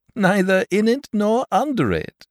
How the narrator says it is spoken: replied, still laughing

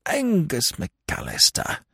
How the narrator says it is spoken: observed Lord Emsworth bitterly

